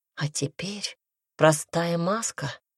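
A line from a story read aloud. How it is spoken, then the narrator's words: Whispered. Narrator (Russian): прошептала Темпест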